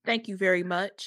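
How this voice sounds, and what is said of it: Impression of another person's voice. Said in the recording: “in my VJ voice”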